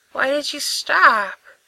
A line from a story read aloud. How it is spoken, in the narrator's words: he croaks